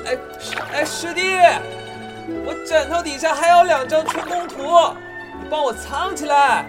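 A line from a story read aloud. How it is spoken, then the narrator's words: Shouting again. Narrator (Chinese): 我又喊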